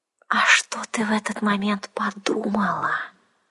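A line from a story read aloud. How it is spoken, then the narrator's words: Insinuating venomous hiss. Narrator (Russian): Вкрадчиво и как-то ядовито прошипела она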